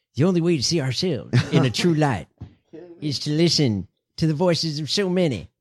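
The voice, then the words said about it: George Bush impression. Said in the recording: “George Bush ... my bad imitation ... No, that's a good one.”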